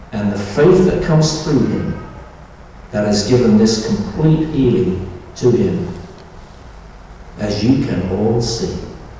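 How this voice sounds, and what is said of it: British English accent. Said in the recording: “my accent ... a very British pronunciation ... English accent”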